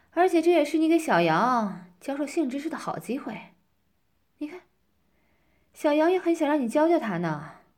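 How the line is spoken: Teasing. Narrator (Chinese): 我调笑着说

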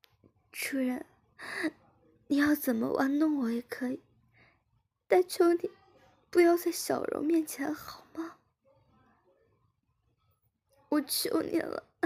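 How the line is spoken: Crying pleading. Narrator (Chinese): 志敏边哭边说

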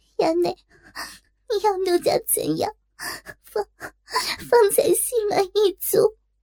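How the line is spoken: Hurried crying. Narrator (Chinese): 忙哭道

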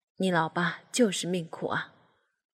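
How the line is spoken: Heavy sigh. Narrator (Chinese): 唉，爸爸长叹了一口气

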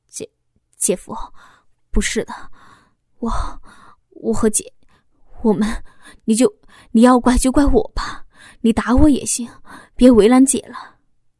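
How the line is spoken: Stammering. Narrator (Chinese): 小峰结结巴巴的说道

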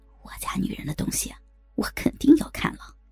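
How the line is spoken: Whisper. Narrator (Chinese): 他将嘴唇凑到儿媳的耳朵旁，悄声的说

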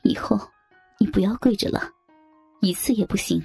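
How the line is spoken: Low echoing voice. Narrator (Chinese): 周丽华压低的声音在卧室里回荡

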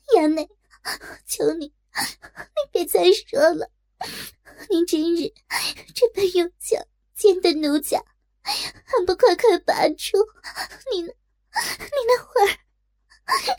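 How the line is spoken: Crying bitterly. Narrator (Chinese): 痛哭道

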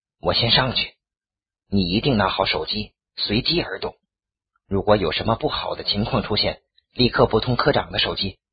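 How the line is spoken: Grave low voice. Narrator (Chinese): 傅冲表情很凝重的冲我低声道

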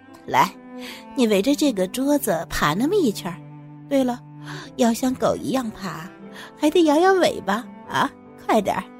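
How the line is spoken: Laughing. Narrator (Chinese): 忽然笑着说

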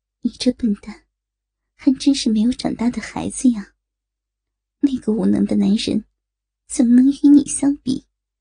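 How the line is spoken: Soft sigh, half-amused scolding. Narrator (Chinese): 柔柔的一叹，圣洁的女人似笑非笑的低啐道

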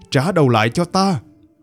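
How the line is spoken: Loud shout. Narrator (Vietnamese): Nhâm Phong Tử hét lớn

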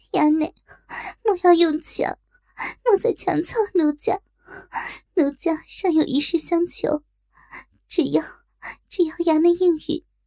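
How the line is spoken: Crying. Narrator (Chinese): 哭道

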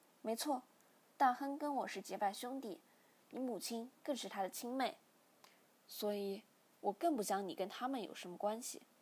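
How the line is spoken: Father sighing. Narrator (Chinese): 父亲叹了口气，便说

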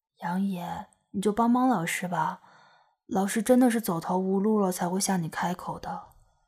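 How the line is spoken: Soft gentle voice. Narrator (Chinese): 傅菊英柔声道

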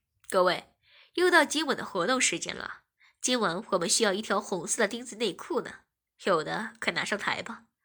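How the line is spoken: Smiling announcer. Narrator (Chinese): 台上的 DJ 笑着说

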